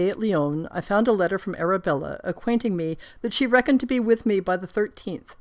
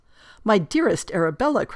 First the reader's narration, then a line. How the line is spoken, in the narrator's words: cried I